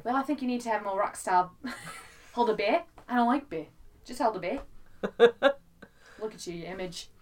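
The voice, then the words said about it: Attempted New Zealand accent. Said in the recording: “That accent... funnier because they have that accent... I don't know how to do that accent. Did I sound like I was doing it not terribly?... New Zealand listeners?”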